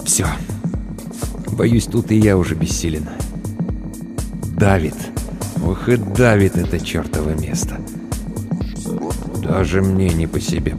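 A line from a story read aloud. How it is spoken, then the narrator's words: Muttering. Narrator (Russian): пробормотал Тахашвили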